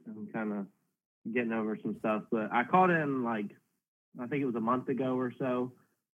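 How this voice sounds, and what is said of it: Sick-sounding voice. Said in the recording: “I sound sick.”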